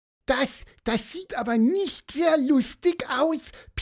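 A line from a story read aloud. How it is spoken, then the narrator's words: Squeaky voice. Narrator (German): piepste Pieper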